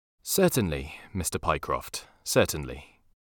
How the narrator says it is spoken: answered in a calmer tone

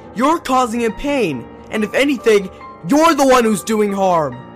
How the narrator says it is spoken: I yelled

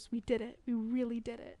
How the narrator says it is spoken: Adora whispers

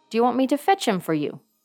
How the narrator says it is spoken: cried Tyrker quickly

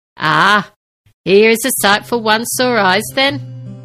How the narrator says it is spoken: Sabin chuckled

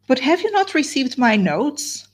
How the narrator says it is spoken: cried Marianne with the wildest anxiety

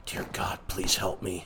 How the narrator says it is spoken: I muttered to myself

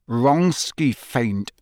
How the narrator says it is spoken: said Harry through gritted teeth

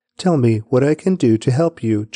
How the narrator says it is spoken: Jonathan exclaimed

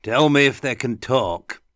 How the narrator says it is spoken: he called out after her

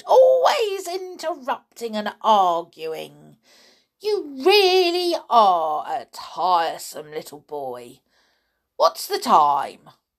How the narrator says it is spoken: she cried

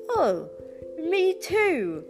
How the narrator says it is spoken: exclaimed the knight

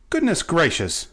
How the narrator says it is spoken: cried Betsy

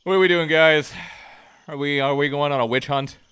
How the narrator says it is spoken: He chuckles to himself

